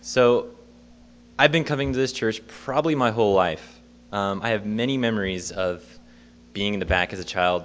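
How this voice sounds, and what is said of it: Sick, slightly off-sounding voice. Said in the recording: “I'm a little sick, if you can tell by that cough ... my voice sounds kind of funny”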